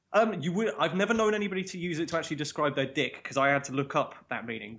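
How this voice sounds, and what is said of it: Londonish BBC English accent. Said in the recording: “my accent's so completely different to the Yorkshire accent these days ... this kind of weird Londonish accent that I've got ... I'm told that I speak BBC English ... You sound like you're from television”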